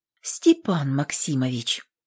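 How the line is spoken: Tender. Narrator (Russian): ласково сказала девка

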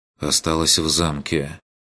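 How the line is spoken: Quiet reply. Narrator (Russian): тихо ответил Курт

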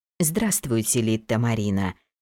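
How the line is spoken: Soft. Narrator (Russian): мягко сказала она

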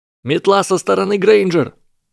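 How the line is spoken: Shout. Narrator (Russian): прокричал

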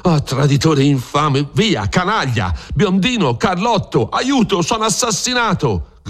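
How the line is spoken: Shouting. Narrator (Italian): grida Don Rodrigo

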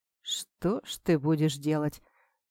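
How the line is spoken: Muttering. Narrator (Russian): пробормотал Сухен

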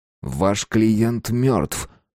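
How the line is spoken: Deliberately sharp reminder. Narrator (Russian): намеренно резко напомнил

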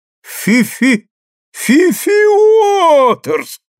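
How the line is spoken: Crowd shouting. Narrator (Russian): закричали все

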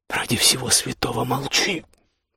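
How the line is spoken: Hissed. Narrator (Russian): прошипела она

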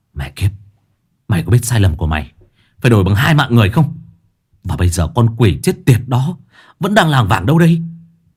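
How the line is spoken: Angry, through gritted teeth. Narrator (Vietnamese): Tôi tức giận, gằn giọng

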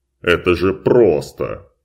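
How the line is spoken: Growling. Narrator (Russian): Флоренс зарычала

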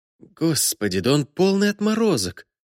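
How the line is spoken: Frightened whisper. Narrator (Russian): испуганно прошептала Наталья, вновь обретая дар речи

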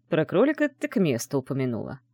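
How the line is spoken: Snort. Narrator (Russian): хмыкнул

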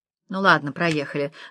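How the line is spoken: Sighing woman. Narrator (Russian): вздохнула та

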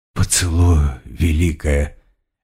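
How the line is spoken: Barely audible murmur. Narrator (Russian): еле слышно произнесла Листи

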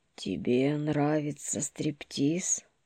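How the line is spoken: Hoarse, forced calm question. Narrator (Russian): хрипло осведомился лис, стараясь казаться спокойным

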